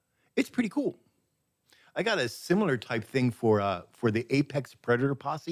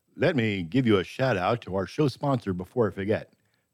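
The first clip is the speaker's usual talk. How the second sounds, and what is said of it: Radio announcer voice. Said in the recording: “That's a pretty good announcer voice”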